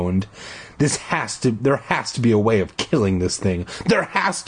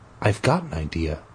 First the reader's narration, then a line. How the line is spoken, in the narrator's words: he said quietly